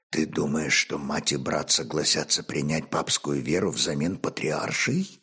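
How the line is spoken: Whispered question. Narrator (Russian): также шепотом спросил Олег

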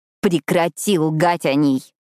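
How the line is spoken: Growled. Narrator (Russian): прорычала я

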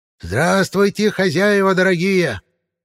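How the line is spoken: Witch shouting loudly. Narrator (Russian): во все горло крикнула ведьма

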